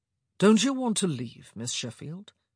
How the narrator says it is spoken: he said, too smoothly

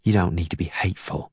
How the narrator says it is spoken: she whispers

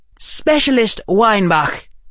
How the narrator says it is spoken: she barked

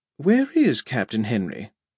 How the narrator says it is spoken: Pamela said calmly

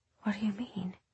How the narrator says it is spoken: she whispered

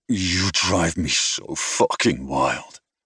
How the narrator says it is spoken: groaned

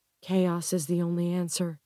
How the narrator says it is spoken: she whispers

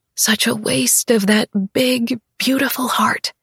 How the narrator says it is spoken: I whisper

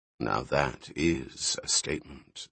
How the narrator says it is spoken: said the monk quietly

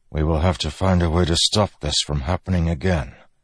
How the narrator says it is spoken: Dalinar said softly

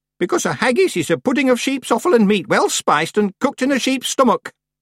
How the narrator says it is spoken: said Miss Treason sharply

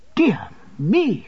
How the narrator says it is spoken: cried Mr

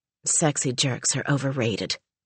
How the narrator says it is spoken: muttered Eva

